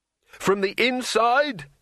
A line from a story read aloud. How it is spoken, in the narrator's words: shouted Rincewind